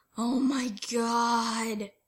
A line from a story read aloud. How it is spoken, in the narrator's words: groaned as his eyes fluttered shut